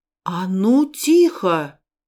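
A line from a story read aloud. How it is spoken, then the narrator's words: Surprisingly loud command. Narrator (Russian): скомандовал папа Герман и сам удивился, как громко у него получилось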